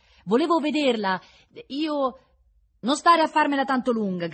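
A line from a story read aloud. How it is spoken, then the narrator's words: Ragged man shouting. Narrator (Italian): gridava lo straccione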